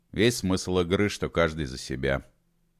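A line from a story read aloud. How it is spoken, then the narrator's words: Dry reply. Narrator (Russian): сухо ответил Холодовский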